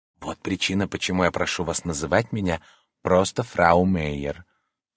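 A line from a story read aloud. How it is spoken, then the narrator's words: Leaning-in whisper. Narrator (Russian): сказала она шепотом, наклоняясь вперед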